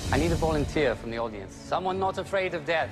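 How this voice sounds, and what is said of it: Outrageous, unidentifiable put-on accent. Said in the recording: “speaking in a uh, outrageous accent. I do not know what this is. ... as bad as mine.”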